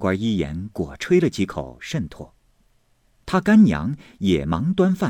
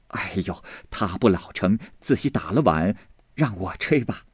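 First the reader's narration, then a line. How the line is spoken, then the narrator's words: Hurried, laughing. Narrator (Chinese): 便忙跑进来笑道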